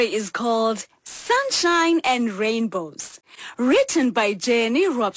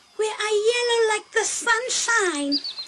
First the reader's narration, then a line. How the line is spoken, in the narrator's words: exclaimed Wame